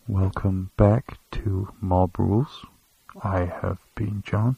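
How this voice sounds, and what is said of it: Mock NPR radio announcer voice. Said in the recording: “I really like doing NPR voice.”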